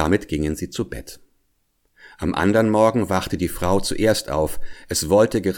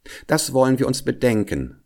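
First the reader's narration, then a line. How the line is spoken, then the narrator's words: Plain. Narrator (German): sagte die Frau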